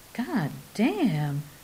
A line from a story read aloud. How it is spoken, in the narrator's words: Kapinski swore softly